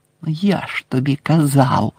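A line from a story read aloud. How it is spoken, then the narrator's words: Hissing. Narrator (Ukrainian): засичав Рон на Герміону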